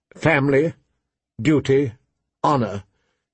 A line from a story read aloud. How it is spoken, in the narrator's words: she recited stiffly